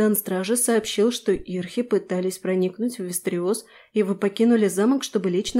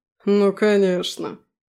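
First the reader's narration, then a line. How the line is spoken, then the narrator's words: Snorting. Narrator (Russian): хмыкнул Аласдер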